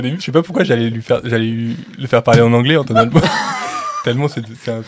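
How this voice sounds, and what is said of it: Usual voice. Nothing is said of it.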